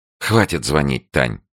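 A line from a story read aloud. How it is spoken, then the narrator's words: Angry request. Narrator (Russian): попросила она сердито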